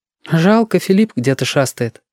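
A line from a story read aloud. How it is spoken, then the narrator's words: Sighing. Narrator (Russian): вздохнула Лис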